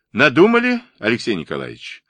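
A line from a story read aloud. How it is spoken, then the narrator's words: Cheerful question. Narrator (Russian): веселым голосом спросил Вилкс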